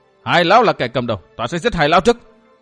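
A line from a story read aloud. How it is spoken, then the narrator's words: Shouted. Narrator (Vietnamese): chẳng hét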